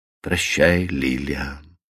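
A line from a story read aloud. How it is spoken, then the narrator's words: Soft and friendly. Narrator (Russian): мягко и дружелюбно обратился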